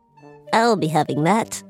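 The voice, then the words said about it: Fairy-like lady goblin voice. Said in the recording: “lady gob voice ... that's like a more fairy goblin”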